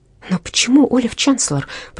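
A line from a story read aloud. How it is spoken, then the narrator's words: Whispered, restrained annoyance. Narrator (Russian): прошептала Верина, как будто пытаясь, несмотря на досаду, которую вызвало у нее это заявление, отдать должное беспристрастности подруге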